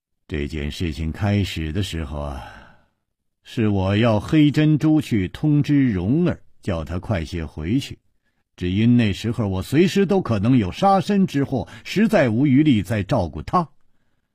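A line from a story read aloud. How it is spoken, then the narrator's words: Sighing. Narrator (Chinese): 楚留香叹了一口气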